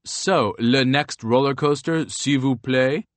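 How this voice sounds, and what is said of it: Goofy put-on French accent. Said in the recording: “in this goofy French accent”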